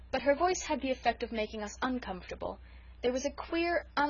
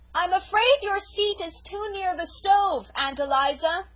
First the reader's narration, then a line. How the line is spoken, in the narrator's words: shouted Felicity